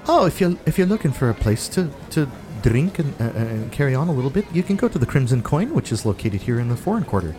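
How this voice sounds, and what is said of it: Slight put-on Scottish accent. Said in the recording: “her voice slipped into a little bit of a Scottish accent there.”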